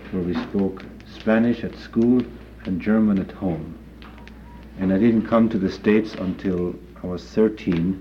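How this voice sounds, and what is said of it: Foreign accent, sounds Dutch. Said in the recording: “my accent comes from, not having spoken English till I was 14. People have judged it to be Dutch”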